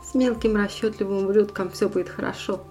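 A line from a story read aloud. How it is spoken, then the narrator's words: Happy laughter. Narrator (Russian): рассмеялся, счастливо впервые за много месяцев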